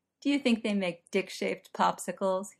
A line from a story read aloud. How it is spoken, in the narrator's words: asked, a laugh in his voice